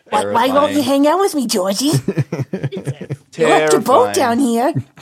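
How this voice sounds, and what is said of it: Creepy clown character voice. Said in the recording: “Stop it with that voice, man. ... Pennywise ... I don't know how accurate your impression is, but I don't like it. ... That's scary.”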